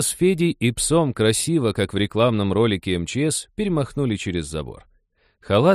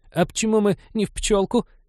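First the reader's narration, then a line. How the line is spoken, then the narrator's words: Squeaky. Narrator (Russian): пискнул господин Реверс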